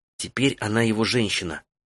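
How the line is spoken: Whispering. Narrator (Russian): прошептала Фен Таити

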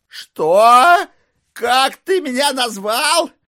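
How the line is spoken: Incredulous roar. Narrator (Russian): Не веря своим ушам, взревел Майло

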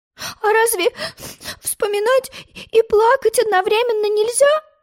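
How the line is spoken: Sobbing question. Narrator (Russian): всхлипывая, спросила Алиса

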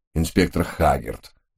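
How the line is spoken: Somewhat glum. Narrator (Russian): несколько уныло начал представитель Скотланд-Ярда

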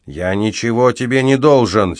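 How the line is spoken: Angry repetition. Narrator (Russian): сердито повторил мальчик-солдат

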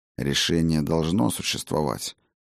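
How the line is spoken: Undertone. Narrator (Russian): сказал я вполголоса Ракоту

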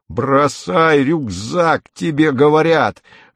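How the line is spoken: Terrible roar. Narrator (Russian): ревет страшным голосом

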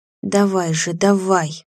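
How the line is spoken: Inaudible whisper. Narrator (Russian): неслышно шептала Ольга

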